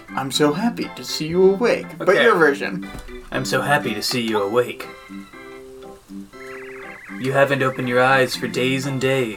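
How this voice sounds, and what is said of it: Nonplussed young anime hero voice. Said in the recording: “do your nonplussed shonen voice.”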